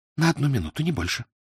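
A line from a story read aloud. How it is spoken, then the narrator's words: Whispered. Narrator (Russian): Оюми шепнула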